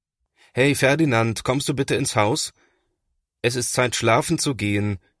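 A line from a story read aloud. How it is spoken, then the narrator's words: Calling out. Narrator (German): ruft Papa nach ihm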